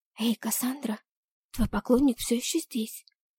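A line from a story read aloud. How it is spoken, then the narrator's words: Whisper. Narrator (Russian): шепнула мне конфетчица Кэндис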